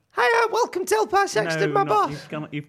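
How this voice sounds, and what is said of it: High-pitched put-on accent. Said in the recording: “your accent in the pilot... It's just a bit high-pitched.”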